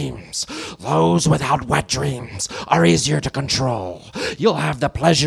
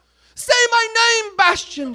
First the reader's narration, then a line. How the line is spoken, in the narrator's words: she yelled